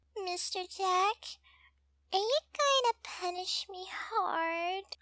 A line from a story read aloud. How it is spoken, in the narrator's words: Dominique asks in her cute baby voice